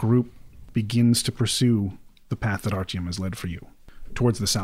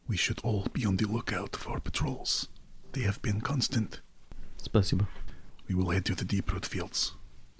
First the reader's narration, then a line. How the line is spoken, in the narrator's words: Karova kind of leans over to you and whispers and says